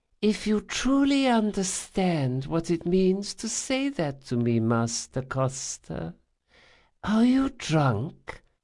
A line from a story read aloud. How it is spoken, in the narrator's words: she said in her slow, witchy whisper